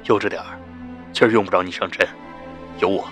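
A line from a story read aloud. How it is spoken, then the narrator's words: Low voice. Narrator (Chinese): 肖冰 低声说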